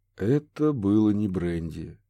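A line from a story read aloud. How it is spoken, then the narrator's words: Sad, quiet. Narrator (Russian): печально проронил Курт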